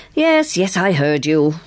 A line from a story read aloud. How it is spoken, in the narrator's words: Carstairs said impatiently